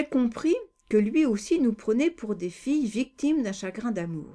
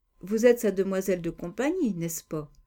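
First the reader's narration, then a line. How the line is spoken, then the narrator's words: Murmured. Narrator (French): a-t-il murmuré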